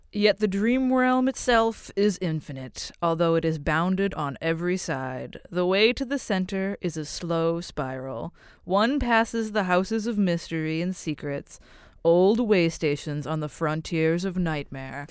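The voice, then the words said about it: Silly character voice, speaking too slowly. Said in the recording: “do a dumb voice ... I just always imagine Sandman as the guy who talks a little too slow. ... Yeah, slightly slow.”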